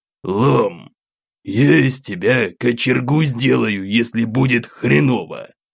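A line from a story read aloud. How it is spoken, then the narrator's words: Grumbling. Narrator (Russian): Поворчав, сдался боевой товарищ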